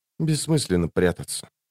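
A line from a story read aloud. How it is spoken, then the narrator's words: Frowning whisper. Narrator (Russian): прошептала Лорн, хмуро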